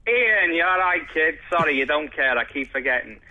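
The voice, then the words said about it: Strong over-the-top Liverpool accent. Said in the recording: “Is that a real accent? Is that your real accent? ... do a really over-the-top Liverpool accent”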